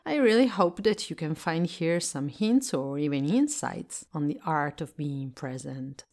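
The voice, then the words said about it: Italian-accented English. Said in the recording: “I'm Italian and I live in Italy, so I speak English as a second language ... my accent”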